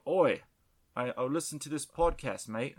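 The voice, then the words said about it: Disguised voice with put-on accent. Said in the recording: “I have to disguise my voice ... That's a really convincing accent.”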